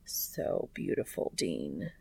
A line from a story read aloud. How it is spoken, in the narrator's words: Cass murmurs